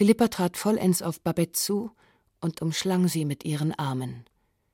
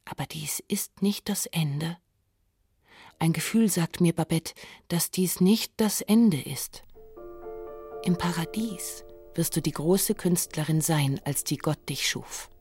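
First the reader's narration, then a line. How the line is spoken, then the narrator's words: Whispering. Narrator (German): flüsterte sie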